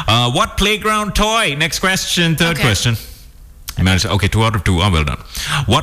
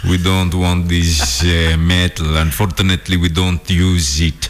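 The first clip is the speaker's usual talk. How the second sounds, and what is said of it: Put-on Aztec accent. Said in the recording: “That's my Aztec accent.”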